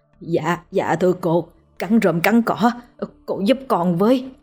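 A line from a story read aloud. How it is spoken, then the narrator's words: Trembling. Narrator (Vietnamese): Lão Bằng run run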